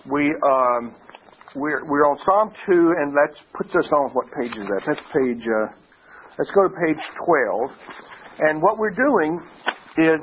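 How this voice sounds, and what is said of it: Congested, slightly nasal voice. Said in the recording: “I'm only working with about half of my sinuses here, so if I sound a little nasal”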